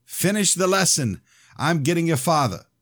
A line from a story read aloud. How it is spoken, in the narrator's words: she shouted